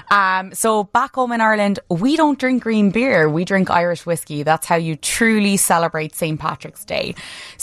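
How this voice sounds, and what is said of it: Irish accent. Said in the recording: “if you can't tell, I'm from Ireland. ... I haven't been practicing this accent. It is authentic.”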